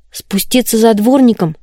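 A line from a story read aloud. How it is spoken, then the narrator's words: Trembling voice. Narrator (Russian): спросила Коломбина дрожащим голосом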